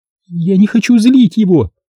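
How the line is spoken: Pitiful sobbing. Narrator (Russian): сказала Мари с жалким всхлипыванием

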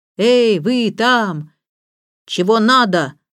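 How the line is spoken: Menacing reply. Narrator (Russian): грозным голосом откликнулся Роберт

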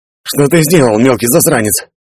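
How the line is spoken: Wheezing between coughing fits. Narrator (Russian): просипел Гриша, жадно глотая воздух в перерывах между приступами дичайшего кашля

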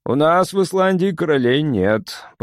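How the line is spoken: Grumbled. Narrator (Russian): проворчал я

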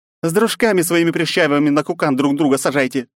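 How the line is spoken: Snapping retort. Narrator (Russian): огрызнулась Лапочка

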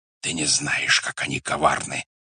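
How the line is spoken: Whispered in the ear. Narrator (Russian): шептал он на ухо

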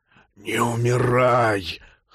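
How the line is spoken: Hoarse rasp. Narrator (Russian): хрипел Норл

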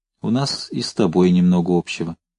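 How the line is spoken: Quiet, humble. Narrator (Russian): с внезапным смирением тихо сказала

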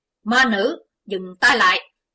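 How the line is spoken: Sudden shout. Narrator (Vietnamese): Chí Tôn chợt quát

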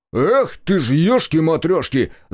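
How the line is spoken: Loud yell. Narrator (Russian): заорал Олег

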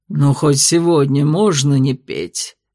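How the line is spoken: Groaning. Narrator (Russian): простонал Терлион

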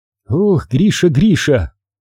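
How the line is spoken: Sighing. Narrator (Russian): вздохнула доктор

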